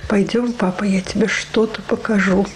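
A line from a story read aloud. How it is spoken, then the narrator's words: Whisper. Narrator (Russian): она ему шепотом говорит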